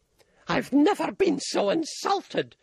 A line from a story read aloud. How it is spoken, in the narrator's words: screamed Auntie Rose